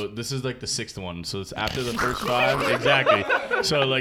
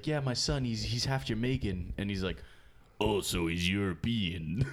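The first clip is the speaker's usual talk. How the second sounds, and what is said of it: Imitates another person's voice. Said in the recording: “that impersonation was pretty on point.”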